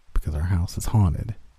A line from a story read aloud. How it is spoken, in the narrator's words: said, then mumbled